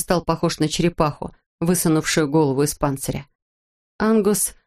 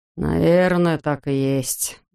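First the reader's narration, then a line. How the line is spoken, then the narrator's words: Sighing. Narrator (Russian): вздохнул Бигелоу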